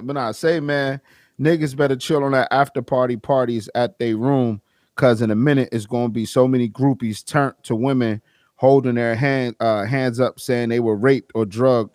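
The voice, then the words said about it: Put-on Southern US accent. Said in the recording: “I read this shit in the down south of accent”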